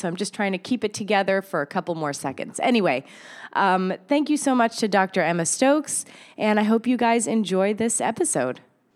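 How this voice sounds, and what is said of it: Sick-sounding voice. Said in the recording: “I think I'm coming down with a cold or something, which is why my voice sounds like this”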